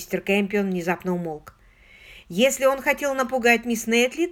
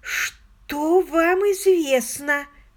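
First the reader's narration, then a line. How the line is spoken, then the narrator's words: Hoarse question. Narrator (Russian): хрипло спросила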